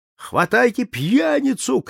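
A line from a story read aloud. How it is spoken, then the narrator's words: Angry shout. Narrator (Russian): крикнул сердитый голос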